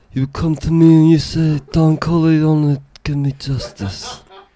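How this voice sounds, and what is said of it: Imitates the Godfather movie character. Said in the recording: “I do the Godfather for $10. ... So you're a Godfather impersonator?”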